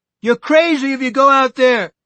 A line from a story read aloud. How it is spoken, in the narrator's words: someone, it was Buddy Eagleton, I think, shouted